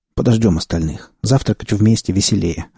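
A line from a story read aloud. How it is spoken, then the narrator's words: Plain. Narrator (Russian): ответил я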